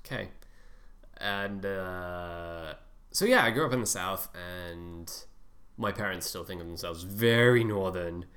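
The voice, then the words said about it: Mostly American accent. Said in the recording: “I currently speak with a mostly American accent”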